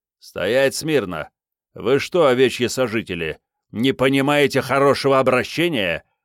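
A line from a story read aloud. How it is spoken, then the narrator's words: Policeman's growl. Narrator (Russian): прорычал полицейский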